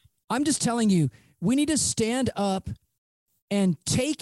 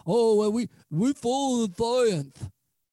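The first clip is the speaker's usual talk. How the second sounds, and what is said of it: Imitates another person's voice. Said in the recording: “I'm trying to do my best impersonation, but I can't talk as bad as he does.”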